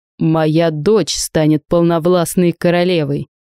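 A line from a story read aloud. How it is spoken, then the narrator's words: Growled. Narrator (Russian): зарычал дядя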